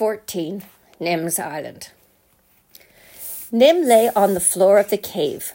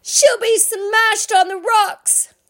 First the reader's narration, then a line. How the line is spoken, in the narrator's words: Nim cried